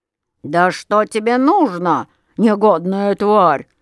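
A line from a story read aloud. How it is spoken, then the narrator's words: Growling. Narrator (Russian): зарычал он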